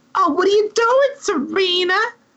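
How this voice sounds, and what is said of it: Exaggerated Brooklyn-Jersey accent. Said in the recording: “The weird vocal choice. ... She's like Adelaide from Guys and Dolls. ... It's this like Brooklyn, Jersey”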